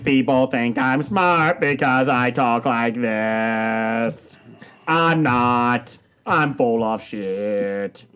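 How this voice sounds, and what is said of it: Imitates a synthesized robotic voice. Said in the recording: “the Stephen Hawking impression ... the effect just felt so wrong there.”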